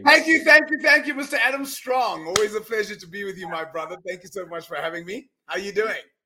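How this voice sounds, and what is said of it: South African accent. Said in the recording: “he's from sunny South Africa, so you can probably tell that by his accent when he comes on, and you'll be able to distinguish that straight away”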